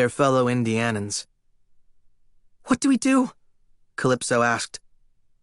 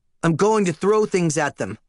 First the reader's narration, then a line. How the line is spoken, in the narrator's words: Leo snapped